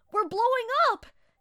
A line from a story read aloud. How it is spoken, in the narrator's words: he yelled